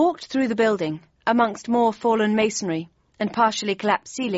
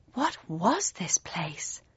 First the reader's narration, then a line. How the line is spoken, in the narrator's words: I asked, my voice barely louder than a whisper